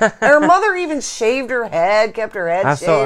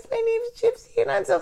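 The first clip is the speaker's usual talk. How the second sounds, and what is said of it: Little girl voice. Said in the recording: “she has a little girl voice.”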